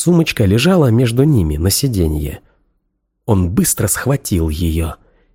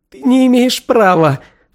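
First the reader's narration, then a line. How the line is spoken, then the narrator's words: Sobbing. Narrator (Russian): всхлипнула она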